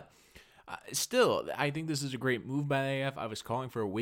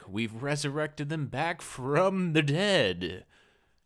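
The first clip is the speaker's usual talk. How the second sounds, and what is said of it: Spooky Halloween-style voice. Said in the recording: “did a Halloween impression”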